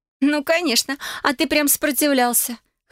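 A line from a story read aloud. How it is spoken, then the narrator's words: Laughing chuckle. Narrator (Russian): хохотнула подруга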